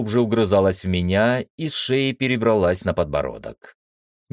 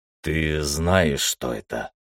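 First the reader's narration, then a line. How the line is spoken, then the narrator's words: Hoarse question. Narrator (Russian): хрипло спросил я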